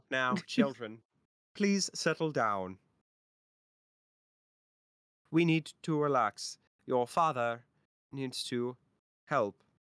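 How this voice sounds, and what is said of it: Attempted southern robot voice, drifting Irish. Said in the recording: “How do I do a southern and robot voice? ... It's going Irish. God, I can't do accents.”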